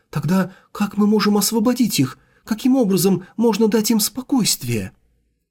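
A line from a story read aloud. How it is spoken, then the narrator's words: Gasping, agitated question. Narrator (Russian): Ахнув, Ван Джен взволнованно спросила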